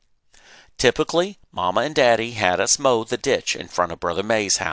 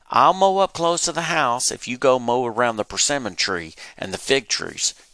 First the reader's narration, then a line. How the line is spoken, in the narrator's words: Virgil said